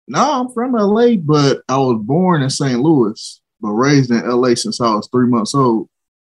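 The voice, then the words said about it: Slight St. Louis twang. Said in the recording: “you still have a little bit of that twang going on from St. Louis”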